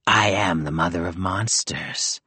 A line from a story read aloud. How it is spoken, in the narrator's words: she said, her voice thick with bile